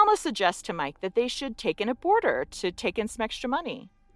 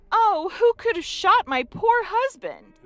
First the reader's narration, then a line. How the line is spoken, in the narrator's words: Alma was screaming